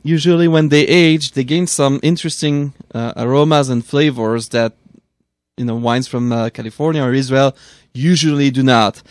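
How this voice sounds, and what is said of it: European accent speaking English. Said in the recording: “such a cute European accent. When you speak English”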